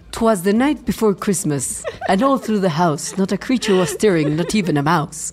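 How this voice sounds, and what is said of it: Put-on British accent. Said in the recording (Spanish): “¿por qué tengo ese gran acento británico? ¿Te fijas que bien lo hago? Eh, como Morrissey.”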